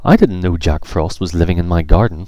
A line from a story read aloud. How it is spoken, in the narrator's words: exclaimed Emily